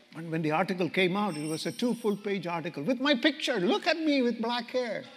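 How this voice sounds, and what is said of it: Foreign-accented English, slightly fast. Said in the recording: “I'm speaking a little too fast. Are you understanding me? My accent is okay?”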